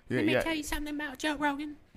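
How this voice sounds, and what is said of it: Poor imitation of another person's voice. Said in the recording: “That's not good. That's a bad impression.”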